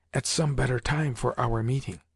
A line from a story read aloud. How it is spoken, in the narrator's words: said Basil in a whisper